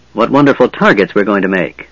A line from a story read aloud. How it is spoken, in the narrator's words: Sturm said irritably